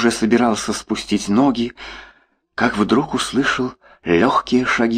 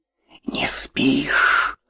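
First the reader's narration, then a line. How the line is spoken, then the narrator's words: Whispered question. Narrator (Russian): шепотом спросила Маша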